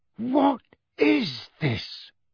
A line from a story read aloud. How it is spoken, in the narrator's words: Uncle Vernon said hoarsely